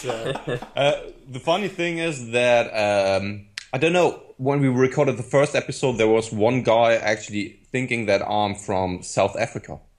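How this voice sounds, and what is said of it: German accent. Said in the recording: “I've just got such a thing for the German accent.”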